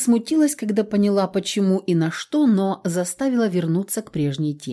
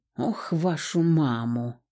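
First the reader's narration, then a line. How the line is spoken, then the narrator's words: Muttered. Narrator (Russian): пробормотала я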